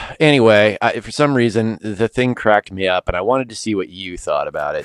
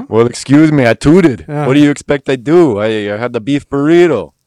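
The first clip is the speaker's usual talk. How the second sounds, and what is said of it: Imitates another person's voice. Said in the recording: “not my best Arnold impression.”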